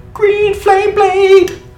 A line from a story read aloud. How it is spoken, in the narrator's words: I scream